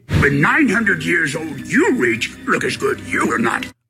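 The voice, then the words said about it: Yoda voice impression. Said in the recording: “National Talk Like Yoda Day ... in a terrible Yoda voice”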